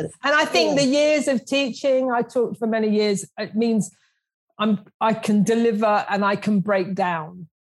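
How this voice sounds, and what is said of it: South London accent. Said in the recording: “I'm the grubby South Londoner. ... And you have the South London.”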